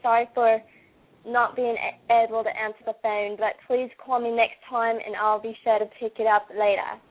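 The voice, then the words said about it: Convincing put-on Australian accent. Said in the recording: “I actually believed I was talking to someone from Australia. ... doing different accents. I can do Australian”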